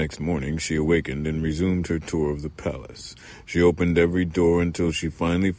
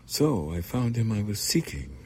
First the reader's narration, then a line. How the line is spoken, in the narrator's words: murmured the girl